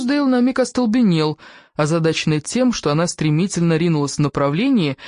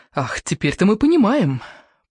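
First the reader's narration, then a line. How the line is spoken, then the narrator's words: Muttering. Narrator (Russian): пробормотала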